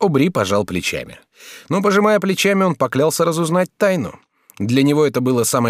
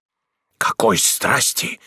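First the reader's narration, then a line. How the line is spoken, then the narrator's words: Trembling whisper. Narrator (Russian): прошептал Герман, задрожав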